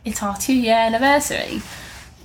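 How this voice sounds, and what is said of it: Poor put-on British accent. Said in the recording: “why did I say that in a British accent? ... That was terrible.”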